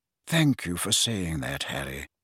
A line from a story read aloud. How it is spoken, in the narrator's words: said Dumbledore quietly